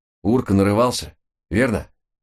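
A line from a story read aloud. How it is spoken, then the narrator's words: Scoffing grunt. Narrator (Russian): хмыкнул второй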